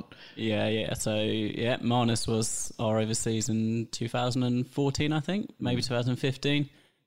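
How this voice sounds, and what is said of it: English accent. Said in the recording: “just a like English twang in your voice”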